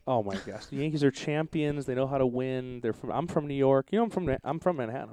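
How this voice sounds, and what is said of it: New York / New Jersey accent. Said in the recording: “You have an accent. ... they talk like you talk. ... In Jersey.”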